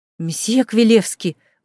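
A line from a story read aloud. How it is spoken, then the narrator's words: Angry exclamation. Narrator (Russian): гневно воскликнула Клоя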